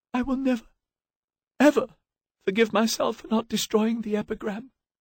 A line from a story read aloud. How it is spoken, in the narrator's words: she managed to say between the sobs that racked her body